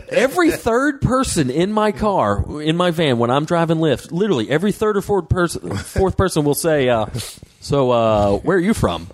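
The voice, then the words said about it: Slight Southern US accent. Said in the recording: “I have a bit of a Southern accent ... I'm from Georgia”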